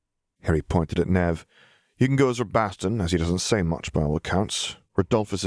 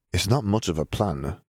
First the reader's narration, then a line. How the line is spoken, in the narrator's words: Nev murmured